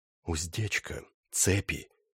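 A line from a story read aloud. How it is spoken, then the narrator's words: Quiet. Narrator (Russian): тихо сказал Доул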